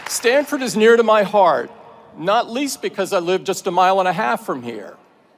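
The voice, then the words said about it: Southern US accent. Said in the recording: “if my accent hasn't given it away ... I went to school on the other side of the country at Auburn University in the heart of landlocked eastern Alabama”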